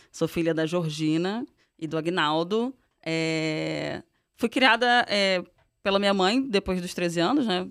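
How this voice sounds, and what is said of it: Carioca Brazilian Portuguese accent. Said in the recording (Portuguese): “pelo sotaque, já deu para ver que ... não é paulista ... eu sou carioca ... todo mundo fala que eu tenho”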